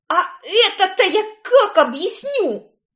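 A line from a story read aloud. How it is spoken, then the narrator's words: Roaring. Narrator (Russian): взревела я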